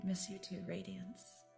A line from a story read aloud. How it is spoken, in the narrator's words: And she says quietly